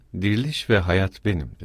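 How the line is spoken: Plain. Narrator (Turkish): dedi

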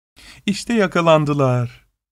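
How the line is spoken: Laughing. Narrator (Turkish): diyerek güldü

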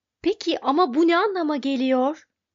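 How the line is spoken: Crying out. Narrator (Turkish): diye haykırdı Arthur

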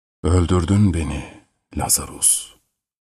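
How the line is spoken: Fading lifeless voice. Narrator (Turkish): dedi cansızlaşan bir sesle

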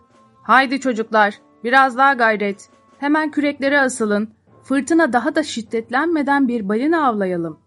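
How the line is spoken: Shouting captain. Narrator (Turkish): Kaptan Starbuck bağırarak

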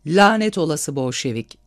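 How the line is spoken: Shouted. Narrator (Turkish): diye bağırdı

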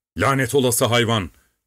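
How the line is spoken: Shouting. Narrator (Turkish): diye bağırdı

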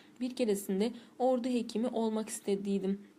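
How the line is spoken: Plain. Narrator (Turkish): dedi

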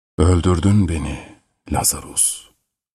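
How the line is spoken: Fading lifeless voice. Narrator (Turkish): dedi cansızlaşan bir sesle

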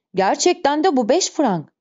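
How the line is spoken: Shouted. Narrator (Turkish): diye bağırdı

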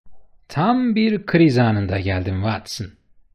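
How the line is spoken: Plain. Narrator (Turkish): dedi

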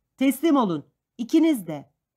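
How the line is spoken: Shouting. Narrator (Turkish): diye bağırıyordu

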